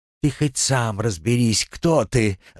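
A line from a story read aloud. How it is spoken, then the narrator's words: Girl's angry laugh. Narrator (Russian): зло рассмеялась девчонка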